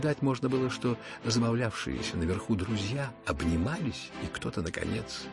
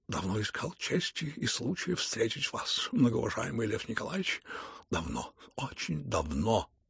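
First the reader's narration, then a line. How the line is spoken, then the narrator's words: Muttering. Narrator (Russian): пробормотал он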